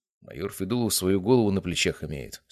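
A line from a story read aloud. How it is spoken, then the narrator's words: Calm reply. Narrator (Russian): спокойно ответил я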